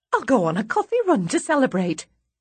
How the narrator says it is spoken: Kate says brightly

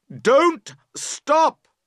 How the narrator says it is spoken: you cry loudly

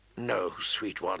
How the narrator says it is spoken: he murmured

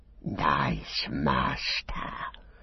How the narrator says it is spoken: whispered

